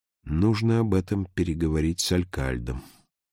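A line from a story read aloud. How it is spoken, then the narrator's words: Muttering to himself. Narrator (Russian): Словно обращаясь к самому себе, падре пробормотал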